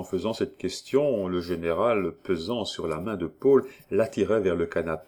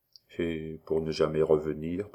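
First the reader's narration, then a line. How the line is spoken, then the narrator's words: Low-voiced older man. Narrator (French): prononça le général à voix basse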